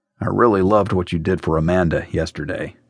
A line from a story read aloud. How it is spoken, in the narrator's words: said, lowering her voice